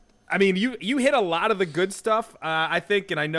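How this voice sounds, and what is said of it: Usual voice. Nothing is said of it.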